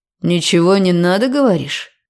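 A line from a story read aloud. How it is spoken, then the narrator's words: Skeptical snort. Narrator (Russian): хмыкнул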